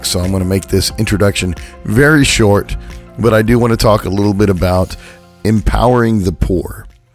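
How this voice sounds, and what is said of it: Hoarse, recovering voice. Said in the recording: “I apologize for my voice this week. I lost it last week in the middle of the week, and I'm finally getting it back.”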